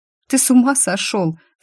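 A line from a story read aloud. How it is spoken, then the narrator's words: Sobbing. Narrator (Russian): всхлипнула я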